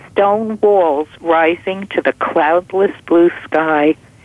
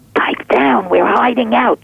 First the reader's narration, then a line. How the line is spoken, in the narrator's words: Trash whispered